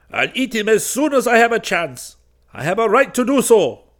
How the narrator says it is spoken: cried the Arab

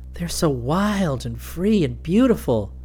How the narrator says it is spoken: Julie sighed

